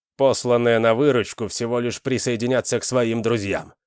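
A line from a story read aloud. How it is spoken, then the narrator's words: Plain. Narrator (Russian): сказал Реза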